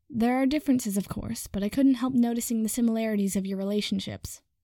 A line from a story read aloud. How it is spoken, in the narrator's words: McGonagall said